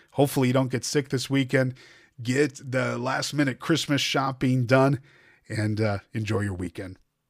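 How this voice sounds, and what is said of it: Hoarse, fading voice. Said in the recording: “as I lose my voice here”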